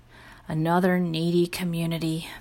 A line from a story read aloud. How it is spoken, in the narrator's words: moaned Mr